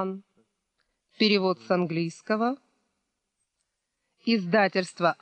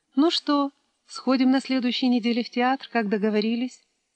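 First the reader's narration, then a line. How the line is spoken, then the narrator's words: Plain. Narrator (Russian): спросила она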